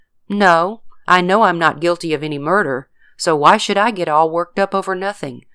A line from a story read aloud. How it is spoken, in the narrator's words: George calmly replied